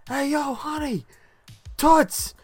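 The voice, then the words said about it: Yelling. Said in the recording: “he's yelling out to her”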